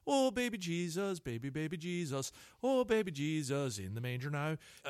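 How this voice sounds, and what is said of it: Sung imitation with Irish accent. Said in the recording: “the Irish limerick thing ... my best Colin Farrell impersonation, and I don't think it worked”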